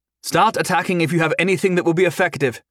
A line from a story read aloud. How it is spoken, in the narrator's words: Henrietta called out, not just for Jason's team, but all the assembled adventurers